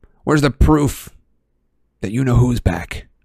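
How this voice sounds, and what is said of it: Aggressive voice. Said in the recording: “in a rather aggressive voice”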